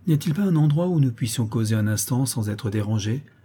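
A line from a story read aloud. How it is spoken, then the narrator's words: Prince asking curtly. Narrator (French): demanda sèchement le prince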